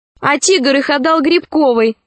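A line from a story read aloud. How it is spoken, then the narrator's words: Prompting. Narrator (Russian): подсказал кто-то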